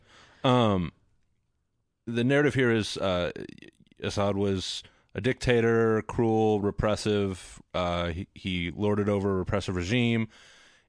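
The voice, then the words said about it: Texas American accent. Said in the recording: “my crappy Texas accent”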